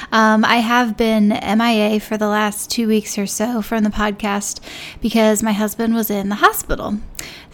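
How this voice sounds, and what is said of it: Raspy, tired voice. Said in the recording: “raspy, tired sound in my voice”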